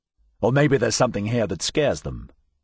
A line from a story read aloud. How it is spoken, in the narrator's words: I said